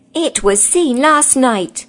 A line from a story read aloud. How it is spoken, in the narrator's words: screamed the ape